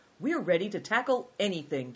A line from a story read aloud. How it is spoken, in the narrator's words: declared Christian eagerly